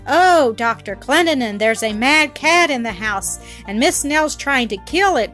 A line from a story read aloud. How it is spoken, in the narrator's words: cried the two women and Flora in chorus